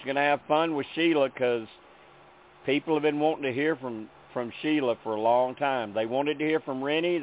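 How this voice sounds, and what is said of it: Memphis Southern accent. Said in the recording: “Does my accent sound familiar as being from Memphis? ... Yeah, I feel like I'm in hometown now.”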